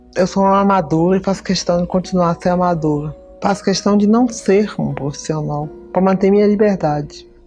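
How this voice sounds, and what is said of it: Distinctive, unmistakable accent. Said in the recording (Portuguese): “com aquele sotaque inconfundível”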